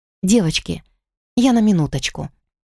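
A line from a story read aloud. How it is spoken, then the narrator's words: Mumble. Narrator (Russian): пробормотала я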